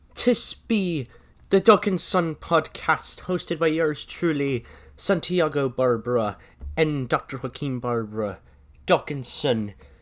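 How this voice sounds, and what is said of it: Poor put-on Irish accent. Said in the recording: “tis I be speaking in a very crappy Irish accent”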